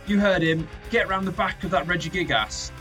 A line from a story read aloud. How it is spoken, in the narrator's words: Felix shouts out to Pratchett